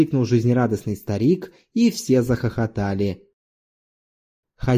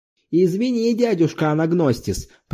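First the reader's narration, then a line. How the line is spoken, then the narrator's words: Shouting into someone's ear. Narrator (Russian): прокричал хозяин кофейни, наклонившись к самому уху старика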